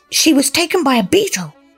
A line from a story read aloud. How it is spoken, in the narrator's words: Cedric cried